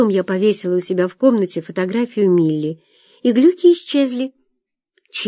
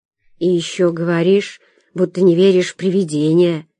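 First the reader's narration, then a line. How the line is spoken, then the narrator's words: Muffled reply. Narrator (Russian): глухо отозвалась Соня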